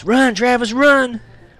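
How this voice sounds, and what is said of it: Scared yelling. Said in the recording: “yelling in a scared voice”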